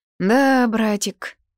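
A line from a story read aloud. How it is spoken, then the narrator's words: Mocking drawl. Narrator (Russian): протянул он насмешливо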